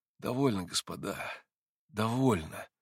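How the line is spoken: Exhausted voice. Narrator (Russian): измученным голосом порешил

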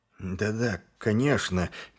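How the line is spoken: Slightly trembling voice. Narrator (Russian): чуть дрожащим голосом промолвил он

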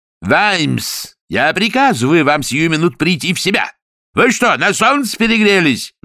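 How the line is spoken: Roared. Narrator (Russian): взревел лорд Растлен

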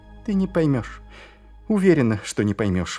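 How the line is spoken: Sighing. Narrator (Russian): вздохнула Ангва

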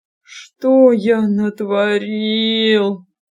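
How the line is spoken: Groaning. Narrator (Russian): простонал он

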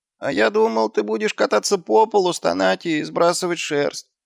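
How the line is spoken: Whining. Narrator (Russian): проскулил он

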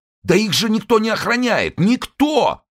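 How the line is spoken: Shouted. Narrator (Russian): закричал

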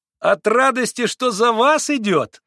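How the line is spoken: Ringing childlike yell. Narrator (Russian): завопил каким-то детским звонким голосом Колганов

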